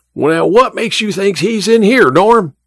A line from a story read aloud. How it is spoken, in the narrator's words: Emma's father yelled again